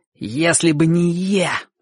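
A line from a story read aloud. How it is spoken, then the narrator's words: Contemptuous hiss, boy. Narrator (Russian): презрительно прошипел мальчик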